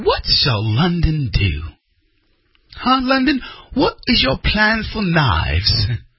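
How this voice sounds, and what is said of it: Bad put-on British accent. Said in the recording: “That was a terrible British accent.”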